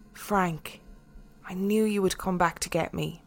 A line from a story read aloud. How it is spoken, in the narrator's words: said softly